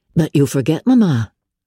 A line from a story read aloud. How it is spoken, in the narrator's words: said Elizabeth